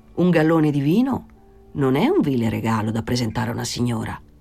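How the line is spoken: Thoughtful suggestion. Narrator (Italian): suggerì in tono pensoso

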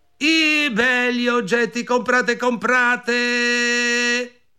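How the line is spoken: Shouting. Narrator (Italian): gridò

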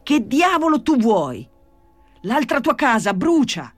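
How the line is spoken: Shout. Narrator (Italian): gridò Gesù Maria

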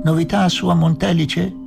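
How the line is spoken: Shouted laughing from below. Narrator (Italian): mi ha gridato ridendo dal basso

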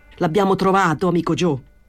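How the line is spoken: Shouting. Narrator (Italian): gridò

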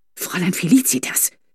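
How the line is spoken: Soft warning hiss. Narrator (German): zischte Fräulein Corbinian leise mahnend

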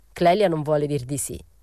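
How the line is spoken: Plain. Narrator (Italian): disse Morelli

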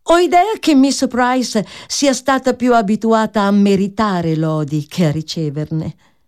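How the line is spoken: Jovial tone. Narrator (Italian): Miss Crawford ebbe solo il tempo di dire, in tono gioviale

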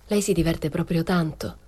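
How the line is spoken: Asked coldly. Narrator (Italian): chiesi freddamente

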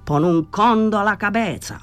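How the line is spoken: Furious shout. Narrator (Italian): Danny era furibondo, gridò

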